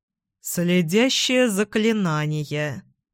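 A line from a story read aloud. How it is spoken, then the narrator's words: Gloomy reply. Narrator (Russian): мрачно ответил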